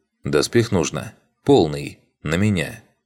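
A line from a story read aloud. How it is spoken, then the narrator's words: Plain. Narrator (Russian): ответил я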